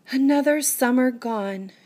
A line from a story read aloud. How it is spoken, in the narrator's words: she sighed